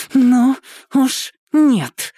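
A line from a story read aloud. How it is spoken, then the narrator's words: Exhaled through clenched teeth. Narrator (Russian): на выдохе сквозь сжатые зубы процедила Яна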